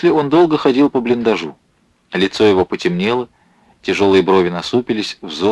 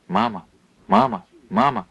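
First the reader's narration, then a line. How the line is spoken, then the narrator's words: Strangled sleep-talking call. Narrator (Russian): сдавленным голосом позвал спящий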